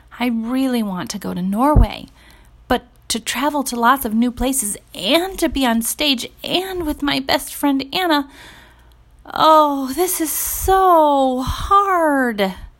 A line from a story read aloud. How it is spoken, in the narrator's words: moaned